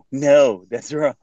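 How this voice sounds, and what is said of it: Eerily good impression of a man. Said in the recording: “That was a little eerie how good that impression was.”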